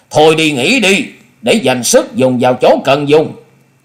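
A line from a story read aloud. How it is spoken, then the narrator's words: Cold voice calling upward. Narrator (Vietnamese): Ở dưới lầu Hùng Tuấn lạnh lùng nói vọng lên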